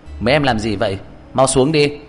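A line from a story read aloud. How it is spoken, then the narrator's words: Sudden shout from below. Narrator (Vietnamese): Đột nhiên dưới tảng cây có người la lên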